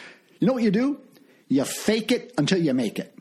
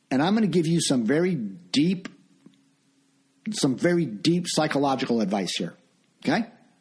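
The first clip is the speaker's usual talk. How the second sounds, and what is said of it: Sarcastic tone. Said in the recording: “I'm being sarcastic.”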